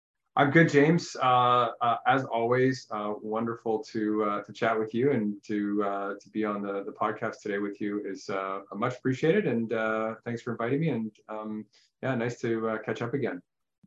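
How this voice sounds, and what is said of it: Slight Canadian accent. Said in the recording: “really cool accent ... not from the Midwest like me ... a little bit of that Canadian twist in there”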